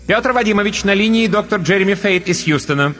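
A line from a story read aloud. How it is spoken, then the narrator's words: Ringing automated voice. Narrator (Russian): звонким голосом сообщил автосекретарь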